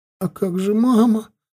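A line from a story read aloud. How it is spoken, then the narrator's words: Tearful question. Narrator (Russian): сквозь слезы спросила Эмма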